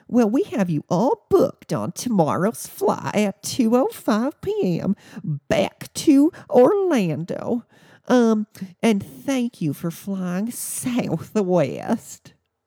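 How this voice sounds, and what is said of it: High-pitched irritated customer service voice. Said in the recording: “in her customer service voice ... that was high pitch ... their voice gets more higher, they get irritated”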